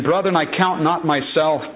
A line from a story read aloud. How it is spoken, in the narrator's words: Paul said